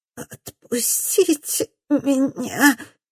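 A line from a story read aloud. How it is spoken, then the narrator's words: Hoarse rasp. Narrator (Russian): хрипит Бергитта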